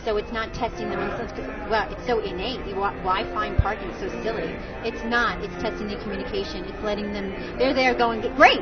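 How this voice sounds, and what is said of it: New York accent. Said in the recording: “you'll hear the New York accent come out. The more I talk about this, the more excited I get. That New York accent would come flying out.”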